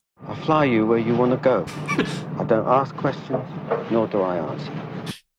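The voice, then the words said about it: Put-on foreign accent, disguised voice. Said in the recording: “this accent ... You talk a bit like David Beckham, to be honest. ... He's doing a different voice.”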